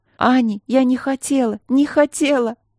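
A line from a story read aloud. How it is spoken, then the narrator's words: Sobbing with eerie wheeze. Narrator (Russian): Рыдание и какой-то жуткий сип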